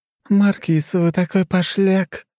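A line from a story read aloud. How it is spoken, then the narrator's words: Playful purr. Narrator (Russian): игриво промурлыкала Хрущева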